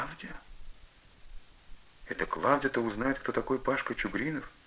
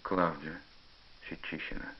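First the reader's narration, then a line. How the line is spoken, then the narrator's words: Sighing confession. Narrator (Russian): вздохнул и признался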